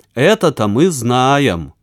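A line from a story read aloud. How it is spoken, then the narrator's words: Snide tone. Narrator (Russian): вредным тоном произнесла Варька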